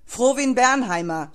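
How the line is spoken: Guard bellowing into hall. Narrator (German): brüllte der Wachmann in den Saal

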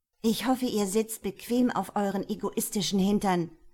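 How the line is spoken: Called out. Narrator (German): rief

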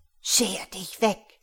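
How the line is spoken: Hiss. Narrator (German): zischte diese

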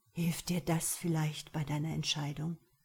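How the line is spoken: Low murmur. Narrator (German): raunte Vlad

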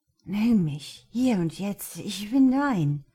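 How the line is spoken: Slurred into ear. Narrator (German): lallte Josh ihm ins Ohr

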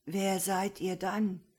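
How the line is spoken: Hoarse old man asking. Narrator (German): Der Alte fragte mit heiserer Stimme

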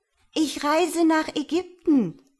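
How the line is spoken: Calling out. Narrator (German): rief die Schwalbe

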